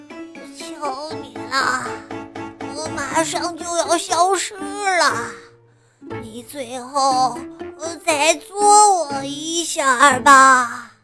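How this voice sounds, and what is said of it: Small, weak, frail voice. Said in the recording (Chinese): “用细小又虚弱的声音说道”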